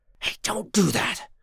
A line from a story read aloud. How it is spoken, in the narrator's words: John hissed in a whisper